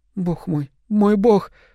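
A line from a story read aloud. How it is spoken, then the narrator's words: Gasping sob. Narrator (Russian): Терри втянула воздух и всхлипнула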